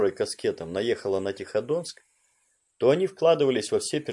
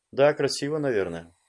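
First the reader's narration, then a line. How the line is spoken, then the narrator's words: Plain. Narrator (Russian): сказал Лис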